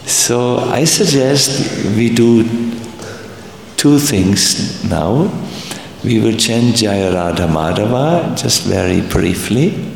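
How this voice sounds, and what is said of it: Strong German accent in English. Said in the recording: “I'm speaking English with a strong German accent”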